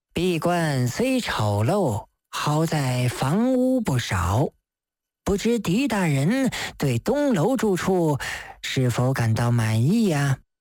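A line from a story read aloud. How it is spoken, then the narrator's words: Flat, indifferent. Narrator (Chinese): 真挚淡淡地说道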